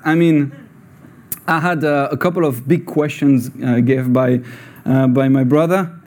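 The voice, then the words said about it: French-accented English. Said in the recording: “So you may have a weird accent. Uh, that guy is French, but he says word in English doesn't sound English. That sounds Scottish or Scottish.”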